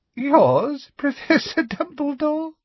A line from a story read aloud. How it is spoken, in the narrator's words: said Umbridge, with a singularly unpleasant little laugh